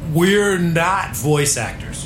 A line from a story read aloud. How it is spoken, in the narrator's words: barked Jonathan West in his worst liar's voice